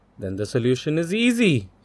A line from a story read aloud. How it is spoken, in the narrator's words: cried Urmila